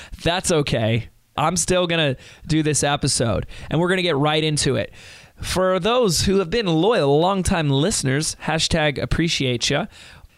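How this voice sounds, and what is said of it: Hoarse, weakened voice. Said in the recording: “I've lost my voice. I got a little sick”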